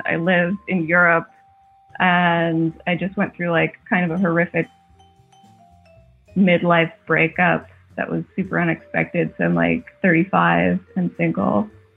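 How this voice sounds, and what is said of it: American accent. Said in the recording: “I don't know if you can tell from my accent, I'm an American.”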